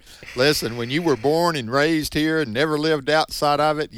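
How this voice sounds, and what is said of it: Southern US accent. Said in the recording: “you'll find someone with a southern accent, even more southern than me... you tend to have that accent that I have in the South”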